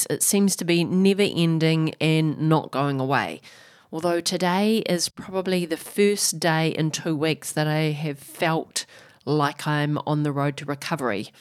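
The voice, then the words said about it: Rough, sick-sounding voice. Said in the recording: “as you might be able to tell by my voice, I am still struggling with this flu virus”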